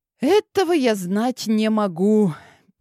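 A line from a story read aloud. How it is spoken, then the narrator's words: Sad sigh. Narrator (Russian): печально вздохнула я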